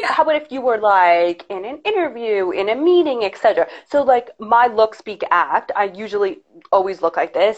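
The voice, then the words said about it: Harsh New York accent. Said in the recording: “I feel like I have a harsher New York accent”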